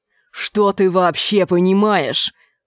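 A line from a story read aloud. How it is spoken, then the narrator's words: Growling. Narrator (Russian): прорычал Энди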